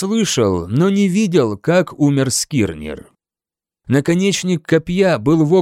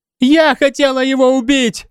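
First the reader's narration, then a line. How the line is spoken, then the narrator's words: Shrieking. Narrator (Russian): завизжала Скади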